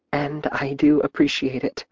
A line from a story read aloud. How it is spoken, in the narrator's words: she breathed